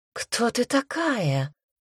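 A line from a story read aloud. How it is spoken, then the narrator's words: Woman's breathless exhale. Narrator (Russian): выдохнула женщина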